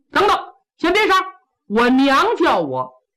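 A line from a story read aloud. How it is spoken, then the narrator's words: Hurried call. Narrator (Chinese): 苏和庆忙叫刀斧手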